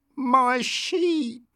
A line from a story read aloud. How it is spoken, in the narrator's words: cried the woman